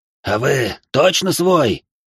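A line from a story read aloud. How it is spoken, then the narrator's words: Hoarse voice from above. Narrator (Russian): послышался чей-то хриплый голос у меня над головой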